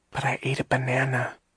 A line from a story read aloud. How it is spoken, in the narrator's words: she whispered